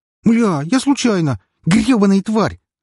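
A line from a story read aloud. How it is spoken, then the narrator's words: Girl screaming. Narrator (Russian): закричала девушка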